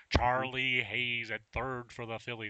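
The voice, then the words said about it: Poor sportscaster voice impression. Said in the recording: “it's a horrible Harry Callis impersonation... That's horrible.”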